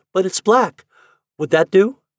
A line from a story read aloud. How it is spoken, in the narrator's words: she exclaimed